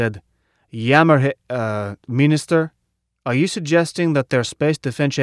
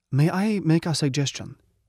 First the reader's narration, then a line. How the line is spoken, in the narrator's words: somebody said quietly